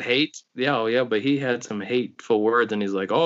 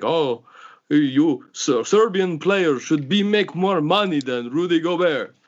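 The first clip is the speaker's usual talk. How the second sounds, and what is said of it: Mock Serbian accent. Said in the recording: “What accent was that? ... It was a nondescript ... Serbian ... accent. ... Midwestern. ... It's a random accent.”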